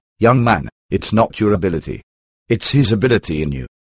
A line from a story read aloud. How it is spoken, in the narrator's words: He calmly turned around and said